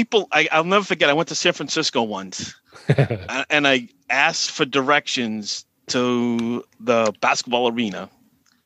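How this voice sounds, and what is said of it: Strong Boston accent. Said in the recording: “your accent is ridiculous ... You must be from Boston”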